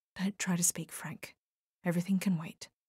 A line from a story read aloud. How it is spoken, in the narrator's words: whispered close to his face